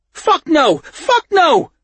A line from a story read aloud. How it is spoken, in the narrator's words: yells, pleading for mercy